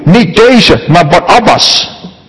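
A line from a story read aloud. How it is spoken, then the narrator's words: Many voices shouting again. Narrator (Dutch): Zij dan schreeuwden allemaal opnieuw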